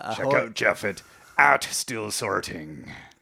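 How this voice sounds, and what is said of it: Pirate character voice. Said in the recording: “pirate voice”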